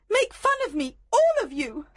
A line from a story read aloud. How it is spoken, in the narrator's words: Helena shouted